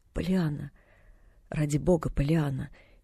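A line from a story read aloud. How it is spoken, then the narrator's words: Quiet pleading. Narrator (Russian): тихо взмолился в ответ мистер Пендлтон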